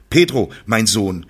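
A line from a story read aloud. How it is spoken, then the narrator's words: Calling across the square. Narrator (German): rief Padre Leon quer über den Platz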